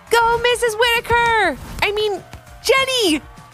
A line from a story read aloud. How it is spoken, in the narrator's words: called out the book buddies